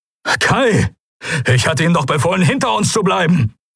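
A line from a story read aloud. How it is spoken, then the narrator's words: Called out. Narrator (German): rief Telios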